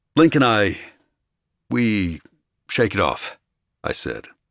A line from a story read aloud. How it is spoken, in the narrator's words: I said, my voice was so steady